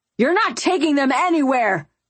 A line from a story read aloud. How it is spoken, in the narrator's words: Titus bellowed